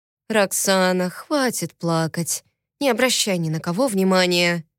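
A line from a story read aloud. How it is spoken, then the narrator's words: Quiet soothing. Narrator (Russian): тихо говорила я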